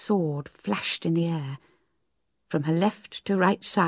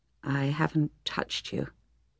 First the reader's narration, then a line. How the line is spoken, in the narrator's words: said Troy quietly